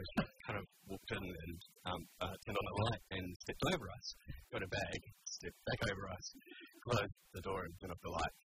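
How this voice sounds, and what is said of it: New Zealand accent. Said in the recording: “Where is that accent from? ... New Zealand. ... Auckland.”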